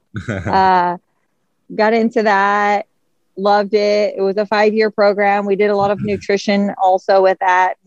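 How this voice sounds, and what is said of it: Slight regional American accent. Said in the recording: “You can hear I have a little bit of an accent still.”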